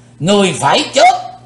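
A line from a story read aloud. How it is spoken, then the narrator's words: Thunderous roar. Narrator (Vietnamese): lão thủ tịch hộ pháp gầm tợ sấm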